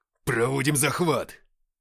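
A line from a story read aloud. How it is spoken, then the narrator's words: Barking command. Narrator (Russian): рявкнул Игнат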